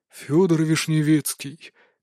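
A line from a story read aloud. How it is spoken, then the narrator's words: Resigned mutter. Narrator (Russian): как-то обреченно пробормотал управляющий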